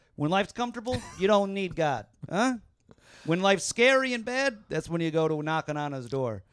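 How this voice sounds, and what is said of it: Brooklyn / Long Island / Jersey accent. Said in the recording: “It was almost like a Brooklyn. ... It was slowly turning into some kind of Long Islandy. ... Maybe a Jersey.”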